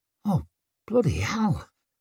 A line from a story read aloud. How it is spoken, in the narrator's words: squeaked Tallow